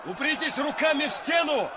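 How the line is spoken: Shouted. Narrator (Russian): крикнул он

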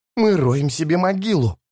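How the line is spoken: Hiss. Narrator (Russian): прошипел Таламандес

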